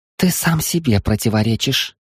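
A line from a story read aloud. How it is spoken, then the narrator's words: Meaningful remark. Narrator (Russian): многозначительно заметила она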